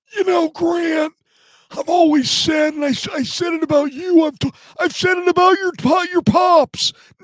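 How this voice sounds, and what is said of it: Imitates another person's voice. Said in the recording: “his balky impression”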